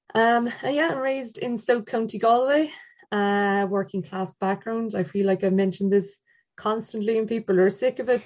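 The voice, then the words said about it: Mixed Galway and Cork Irish accent. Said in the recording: “the strange dyadic accent, I kind of popped between Galway and Cork”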